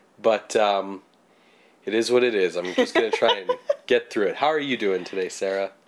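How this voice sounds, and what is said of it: Low, deep sick voice. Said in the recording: “Kind of a baritone ... today... I'm sick, so maybe that means my voice is lower... that stereotypical sick kind of voice”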